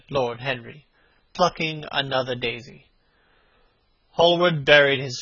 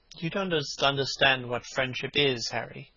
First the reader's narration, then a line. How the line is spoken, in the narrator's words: he murmured